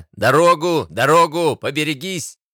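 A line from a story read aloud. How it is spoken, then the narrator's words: Porters shouting roughly. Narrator (Russian): Носильщики грубо крича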